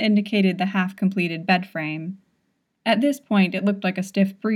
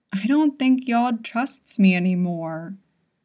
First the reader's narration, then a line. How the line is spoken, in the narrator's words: Longte continued mournfully